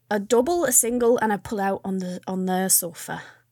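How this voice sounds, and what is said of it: Put-on accent. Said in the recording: “I don't know where this accent is going. Please don't listen to it.”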